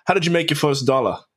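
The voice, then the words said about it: Put-on Australian accent. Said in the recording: “That was my Aussie accent.”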